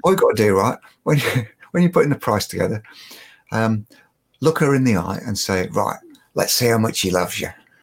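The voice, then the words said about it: Put-on Cockney accent. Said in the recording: “this is my Cockney accent, by the way.”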